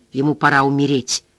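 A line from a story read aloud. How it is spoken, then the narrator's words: Quiet. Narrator (Russian): тихо сказал Гарп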